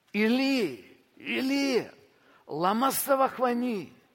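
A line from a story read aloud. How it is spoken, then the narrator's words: Loud cry. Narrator (Russian): возопил Иисус громким голосом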